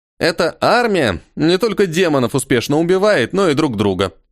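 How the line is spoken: Snorting. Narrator (Russian): хмыкнул Толя

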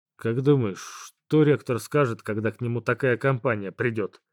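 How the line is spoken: Snorting question. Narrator (Russian): Хмыкнув, спросил я у Светы

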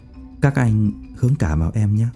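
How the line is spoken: Lowered voice. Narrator (Vietnamese): hạ giọng nói

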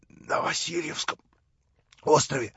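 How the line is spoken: Hoarse old man. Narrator (Russian): хрипел старик

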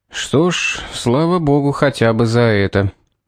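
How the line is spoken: Sighing. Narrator (Russian): вздохнул Юарт

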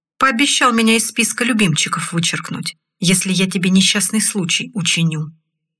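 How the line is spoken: Calm tone. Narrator (Russian): спокойным тоном ответил Олег

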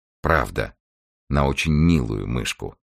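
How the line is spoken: Plain. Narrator (Russian): ответил Генри

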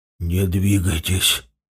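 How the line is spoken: Sudden whisper from behind. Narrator (Russian): послышался вдруг сзади шепот Варлыги

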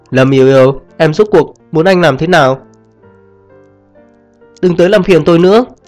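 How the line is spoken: Nearly screaming. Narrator (Vietnamese): Anh trong mày gần như gào lên

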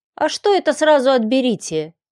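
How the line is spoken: Displeased grumble. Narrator (Russian): недовольно проворчала Варя

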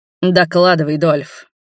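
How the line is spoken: Growled. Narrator (Russian): прорычал Роберт

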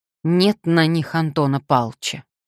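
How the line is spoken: Angry. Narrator (Russian): вдруг она сердито произнесла

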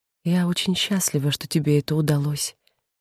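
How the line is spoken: Barely audible whisper. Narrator (Russian): мать, опустив голову, чуть слышно прошептала

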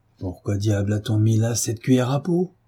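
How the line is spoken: Plain. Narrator (French): dit-il à Marie

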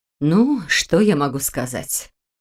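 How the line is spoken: Sigh. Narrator (Russian): вздохнула Ольга

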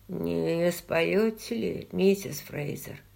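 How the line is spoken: Quiet, polite. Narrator (Russian): Тихо и учтиво произнес он

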